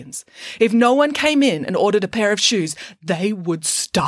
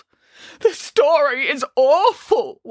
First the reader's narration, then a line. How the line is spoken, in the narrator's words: wailed Boris